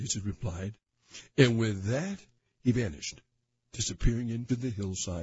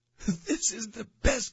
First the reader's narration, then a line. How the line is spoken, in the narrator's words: King Midas yelled